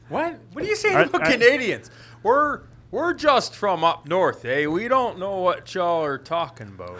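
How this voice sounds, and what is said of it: Put-on Canadian accent. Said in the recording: “Canadian accent”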